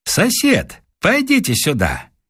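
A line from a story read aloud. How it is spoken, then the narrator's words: Cheerful call. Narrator (Russian): он весело сказав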